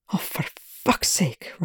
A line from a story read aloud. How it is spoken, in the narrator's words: Rush hissed